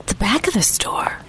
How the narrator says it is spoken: I whispered to Daniel

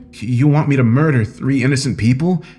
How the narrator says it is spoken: I exclaimed in disgust

